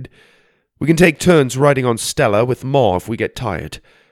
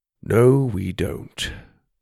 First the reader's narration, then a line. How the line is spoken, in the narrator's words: Das said, gently